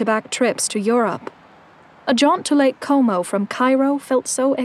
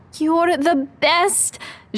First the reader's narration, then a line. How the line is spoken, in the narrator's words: Jaehan shouted